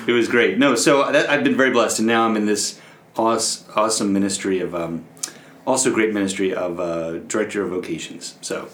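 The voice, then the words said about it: Slight Long Island accent. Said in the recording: “I hear a bit of an accent... Just, a little bit... Is there a tad Long Island in this?... You can't take the accent out of...”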